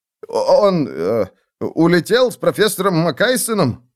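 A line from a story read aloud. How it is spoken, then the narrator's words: Stammering mutter. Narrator (Russian): пробормотал, заикаясь, студент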